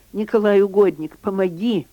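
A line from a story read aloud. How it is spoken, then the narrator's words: Desperate exclamation. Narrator (Russian): В отчаянии хирург воскликнул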